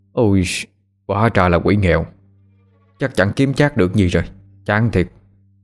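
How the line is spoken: Sighing mutter. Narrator (Vietnamese): Thành Phượng thở dài, miệng lẩm bẩm nói

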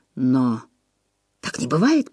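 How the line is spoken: Mumbled. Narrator (Russian): промямлил

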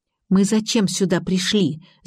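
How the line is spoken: Hiss. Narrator (Russian): зашипела Ирка

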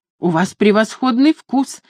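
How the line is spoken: Exclaimed. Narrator (Russian): воскликнула Люсинда

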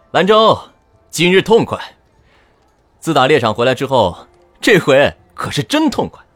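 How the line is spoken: Loud laughter. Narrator (Chinese): 西红轩先大笑出声

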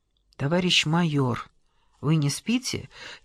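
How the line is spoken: Quiet question. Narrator (Russian): тихонько спросил голос

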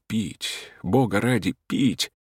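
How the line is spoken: Feverish thirsty whisper. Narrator (Russian): Все внутри у него горело, сквозь сон, все шептал горячечным шепотом

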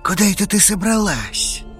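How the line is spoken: Hoarse unfamiliar male voice. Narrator (Russian): прохрипел над ухом незнакомый мужской голос

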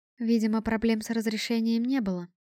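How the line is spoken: Captain's habitual calm statement. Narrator (Russian): привычно спокойно заявила капитан Лукия

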